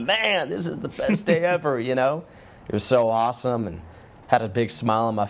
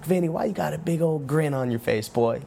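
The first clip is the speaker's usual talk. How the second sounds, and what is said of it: Imitated southern accent. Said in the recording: “with his southern accent”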